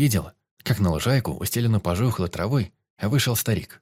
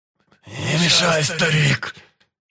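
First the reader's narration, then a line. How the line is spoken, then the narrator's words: Wheezing exclamation. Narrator (Russian): воскликнул с нездоровым хрипом черный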